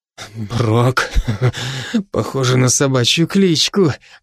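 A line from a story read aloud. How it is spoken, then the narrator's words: Silly giggle. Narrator (Russian): глупо хихикнул Максим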